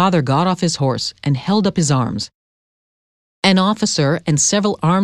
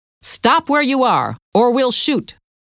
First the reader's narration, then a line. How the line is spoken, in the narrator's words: we heard someone shout